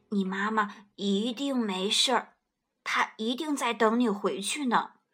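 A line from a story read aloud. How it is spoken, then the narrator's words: Gentle. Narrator (Chinese): 霸王龙温柔地说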